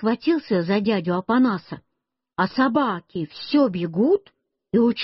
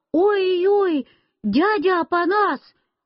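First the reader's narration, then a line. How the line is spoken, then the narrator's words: Frightened scream. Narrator (Russian): Я испугался и закричал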